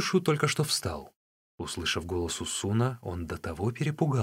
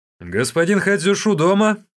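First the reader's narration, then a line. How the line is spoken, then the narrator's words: Loud question. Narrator (Russian): Усун громко спросил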